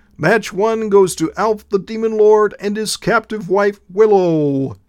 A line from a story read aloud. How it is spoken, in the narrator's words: cried the referee